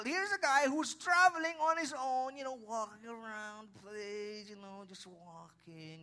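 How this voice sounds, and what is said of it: Speaks with a twang. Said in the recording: “That's why I talk the way I talk now. You know, I have a twang.”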